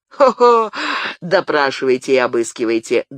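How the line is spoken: Loud forced laugh. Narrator (Russian): громко и неестественно рассмеялся Мартенгер

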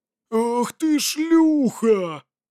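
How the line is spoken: Roaring. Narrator (Russian): взревела Кора

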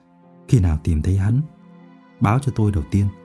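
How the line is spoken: Soft. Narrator (Vietnamese): nói khẽ

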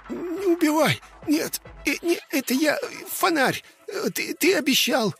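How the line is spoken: Panting, squeaky struggle. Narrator (Russian): Он запыхтел, пытаясь вырваться, и пискнул

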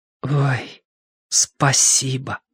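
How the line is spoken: Whisper. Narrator (Russian): выговорил шепотом

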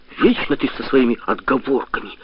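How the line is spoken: Hissing. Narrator (Russian): зашипел Дима

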